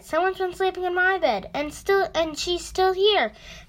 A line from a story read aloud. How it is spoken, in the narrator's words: the baby bear cried